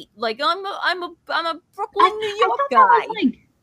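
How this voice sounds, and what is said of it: Exaggerated caricatured Brooklyn accent. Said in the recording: “they all talk like Meowth... how they Meowth talks... Brooklyn and like Italian Brooklyn accent... Like an exaggeration, like a caricature.”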